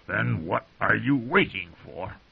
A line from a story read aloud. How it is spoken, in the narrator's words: growled